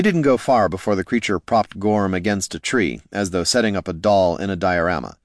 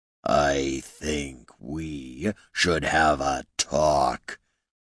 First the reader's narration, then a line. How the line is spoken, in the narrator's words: he said in a deep, grating voice, like granite on a grindstone